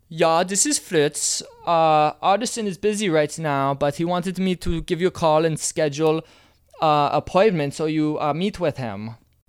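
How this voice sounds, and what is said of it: Put-on German accent, drifting. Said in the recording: “talk to her in a gay German accent ... I don't know how good my accent was on that. I think I started turning into a Chinese guy at the end”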